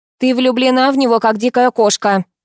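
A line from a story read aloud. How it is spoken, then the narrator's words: Smirking mother. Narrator (Russian): хмыкнула мать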